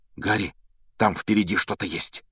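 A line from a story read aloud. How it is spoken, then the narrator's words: Sudden frightened whisper. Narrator (Russian): вдруг испуганным шепотом произнес Рон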